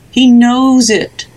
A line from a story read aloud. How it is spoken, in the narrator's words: the house moaned